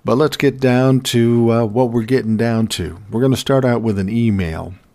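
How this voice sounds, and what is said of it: Mellow, resonant voice from a cold. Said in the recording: “I'm sounding a little more mellow, a little more resonant, and a little calmer ... until I had a cold ... My voice sounds a little different”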